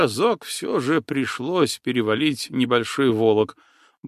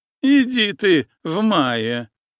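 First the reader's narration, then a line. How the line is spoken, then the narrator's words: Laughing loudly. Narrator (Russian): смуглоликая Алена расхохоталась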